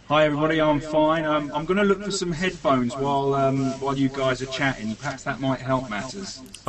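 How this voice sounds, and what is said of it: British accent. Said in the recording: “the British accent, the very cool British accent”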